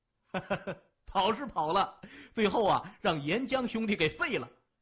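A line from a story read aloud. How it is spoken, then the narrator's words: Hearty laughter. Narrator (Chinese): 三眼哈哈大笑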